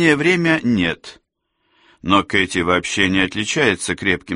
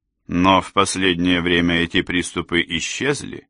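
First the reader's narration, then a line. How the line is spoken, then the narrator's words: Plain. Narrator (Russian): спросил я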